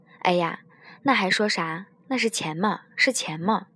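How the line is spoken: Beaming old man. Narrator (Chinese): 大爷，眉开眼笑地对我说

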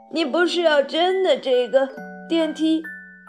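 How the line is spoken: Old man exclaiming. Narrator (Chinese): 约瑟夫爷爷叫道

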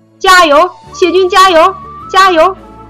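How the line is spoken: Urgent loud shout. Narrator (Chinese): 围巾赶紧大喊

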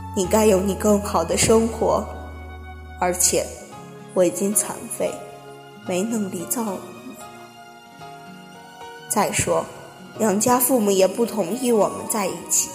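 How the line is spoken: Boy crying. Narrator (Chinese): 男孩也哭着对女孩说

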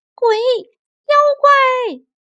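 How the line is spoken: Screaming shout. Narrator (Chinese): 她尖叫着大喊道

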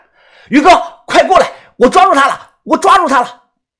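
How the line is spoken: Frightened screaming. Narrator (Chinese): 小道士吓得哇哇大叫啊

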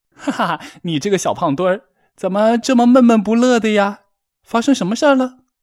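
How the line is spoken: Joking, teasing. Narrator (Chinese): 蝙蝠……开起了玩笑

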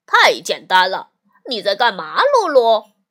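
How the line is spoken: Mocking. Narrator (Chinese): 厄内斯特嘲笑地说

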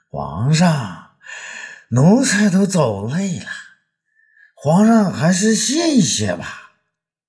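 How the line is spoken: Panting. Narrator (Chinese): 霍子侯气喘吁吁

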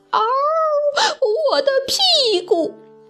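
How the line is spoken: Pained wolf howl. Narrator (Chinese): 忽然听见了狼的叫声

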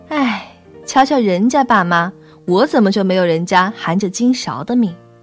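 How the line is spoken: Vain lazy complaining. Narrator (Chinese): 就用那虚荣又懒惰的声音抱怨着

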